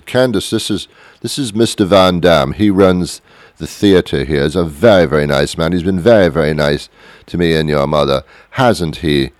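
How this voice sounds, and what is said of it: Rich fake-British accent, gritted teeth. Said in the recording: “They had a little bit of a British accent, even though they weren't British. If you were rich back then you had to talk like this. You had to kind of grit your teeth like Thurston Howell III from Gilligan's Island ... you grit your teeth and you act very millionaire”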